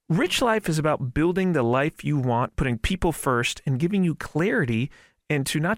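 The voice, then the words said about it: Polished radio announcer voice. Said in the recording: “you have that excellent radio voice”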